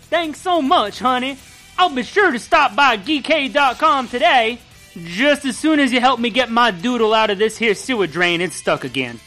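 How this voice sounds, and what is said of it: Southern accent drifting into Jersey. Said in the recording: “You started to lose a southern accent and started to go into a Jersey accent. ... forgot how to speak southern.”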